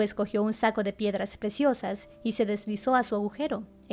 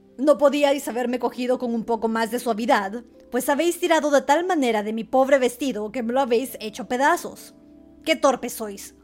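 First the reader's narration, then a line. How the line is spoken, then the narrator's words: Grumpy shout, dwarf. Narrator (Spanish): en cuanto el enano se repuso de su estupor, les gritó con voz gruñona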